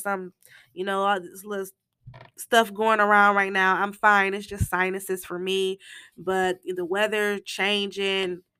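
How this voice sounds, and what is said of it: Hoarse, congested voice. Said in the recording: “my voice sounds a little hoarse ... my nose is all plugged ... that's why I sound like this”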